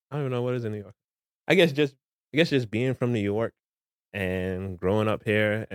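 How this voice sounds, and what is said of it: New York accent. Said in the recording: “I can hear you got an accent ... I didn't know New York had an accent.”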